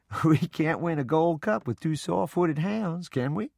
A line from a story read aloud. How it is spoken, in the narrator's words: Papa chuckled and said